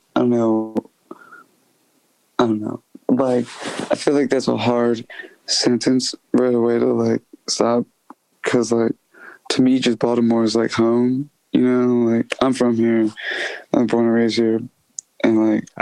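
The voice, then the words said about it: Baltimore accent. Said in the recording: “I hear the accent, man. I hear you.”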